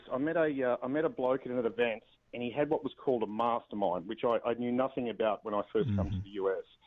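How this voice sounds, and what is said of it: Australian accent. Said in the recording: “I guess you sort of do a little bit with Australians. They've got the accent”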